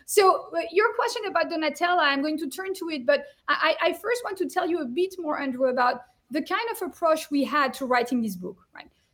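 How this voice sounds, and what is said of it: French accent. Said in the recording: “you're French, of course. So there's a little bit of European flair to this book ... As you can hear to my accent.”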